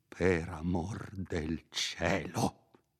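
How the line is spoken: Slow, solemn tone. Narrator (Italian): disse con tono lento e solenne

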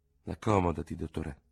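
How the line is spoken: Murmured. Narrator (Italian): mormorò

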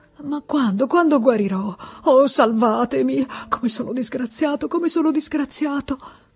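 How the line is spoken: Stammering between sobs. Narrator (Italian): Balbettava tra un singhiozzo e l'altro

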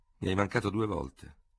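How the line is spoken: Cold. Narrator (Italian): disse freddamente il vincitore

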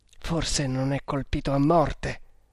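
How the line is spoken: Trembling, emotional murmur. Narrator (Italian): mormorò, tremando per l'emozione

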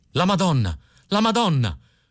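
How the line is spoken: Panicked shouting. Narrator (Italian): si mise a gridare Filippo il Bello, preso da un improvviso panico

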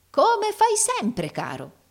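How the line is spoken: Unguarded exclamation. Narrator (Italian): esclamò il fratello Carlo, dimenticando interamente la sua dignità simulata

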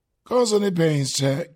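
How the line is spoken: Plain. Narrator (Italian): chiese Oblomov

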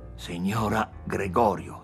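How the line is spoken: Soft, anxiously impatient tremor. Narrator (Italian): disse piano, pur con un angoscioso tremito d'impazienza nella voce

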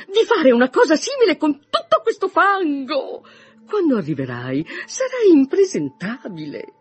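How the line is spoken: Mother exclaiming. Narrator (Italian): esclamò sua madre

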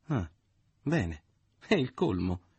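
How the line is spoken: Exclaiming. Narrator (Italian): esclamò

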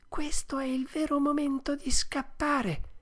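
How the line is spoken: Whispered. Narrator (Italian): bisbigliò allora

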